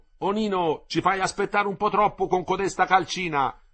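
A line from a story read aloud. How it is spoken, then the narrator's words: Shouting. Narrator (Italian): gli gridò Lippi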